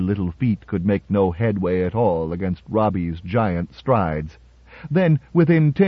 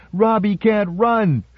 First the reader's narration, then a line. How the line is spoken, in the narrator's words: she shouted at the top of her 8-year-old voice